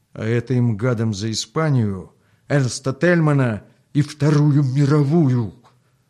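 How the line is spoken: Fierce, through gritted teeth. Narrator (Russian): свирепо сжав зубы, процедил товарищ Русаков

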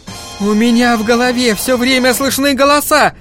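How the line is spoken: Screaming. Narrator (Russian): закричала она

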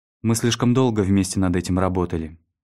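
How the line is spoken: Even voice. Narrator (Russian): ровным голосом произнесла Донна

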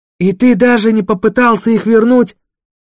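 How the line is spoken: Exclamation. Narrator (Russian): воскликнул Джуфин

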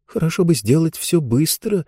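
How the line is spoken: Muttering. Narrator (Russian): пробормотала Лектория

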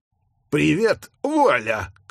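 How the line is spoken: Shout. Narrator (Russian): крикнул Гэдлэм

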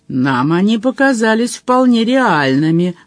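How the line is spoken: Grumbling. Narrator (Russian): проворчал Джон Том

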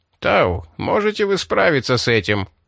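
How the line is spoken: Sharp, habitual voice. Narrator (Russian): спросил Джилико обычным резким голосом, каким всегда говорил на борту королевы

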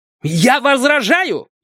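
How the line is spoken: Shouting. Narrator (Russian): закричал Клод Драм

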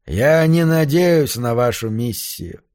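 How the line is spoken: Muffled, hollow voice. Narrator (Russian): глухо говорил Хопли

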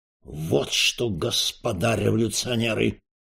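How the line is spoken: Menacing announcement. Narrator (Russian): грозно объявил Распетрович

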